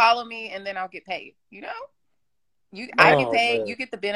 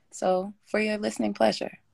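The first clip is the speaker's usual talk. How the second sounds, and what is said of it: Put-on sexy seductive voice. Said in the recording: “in my sexy voice. ... They stop talking like that.”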